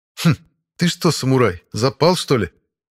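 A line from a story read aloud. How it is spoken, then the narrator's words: Scoffing. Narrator (Russian): хмыкнул он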